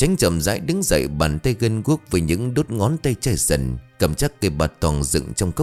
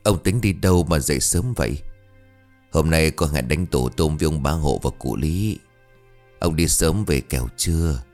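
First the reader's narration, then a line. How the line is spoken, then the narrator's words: Soft woman's voice. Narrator (Vietnamese): bà khẽ cất giọng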